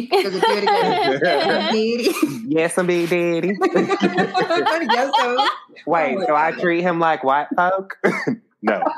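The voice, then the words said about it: Imitates a film character's voice. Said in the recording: “I have that girl from Django impression.”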